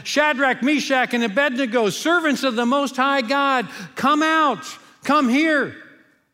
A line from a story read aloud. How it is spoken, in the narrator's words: Nebuchadnezzar shouted